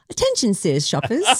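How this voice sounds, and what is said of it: Put-on British accent. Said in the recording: “English accent in your real life ... talking with a British accent”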